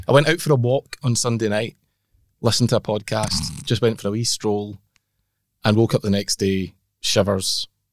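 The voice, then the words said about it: Muffled, nasal, congested voice. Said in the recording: “you don't sound very good. You sound a bit muffled. ... a little bit nasal ... absolutely full on cold”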